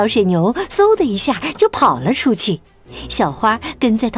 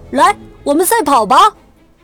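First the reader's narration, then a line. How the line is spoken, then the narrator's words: Bored shout. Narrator (Chinese): 小水牛觉得很无聊，它喊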